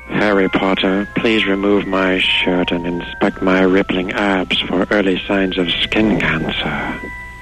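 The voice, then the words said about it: Professor Snape character impression. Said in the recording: “He does a fantastic impersonation of Professor Snape ... I'll do a Snape ... your Professor Snape impersonation”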